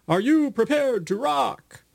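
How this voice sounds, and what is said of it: Haunted ghost voice, vaguely Eastern European. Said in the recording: “in a haunted voice... whatever your haunted voice sounds like, though, it doesn't have to sound like mine, kind of a vaguely Eastern European thing... Whatever your ghost voice is”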